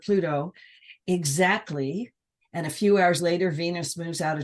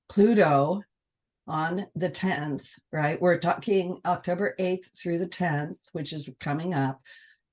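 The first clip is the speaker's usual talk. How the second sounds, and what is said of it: Speaks slowly and deliberately. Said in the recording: “I'm going to say it slowly.”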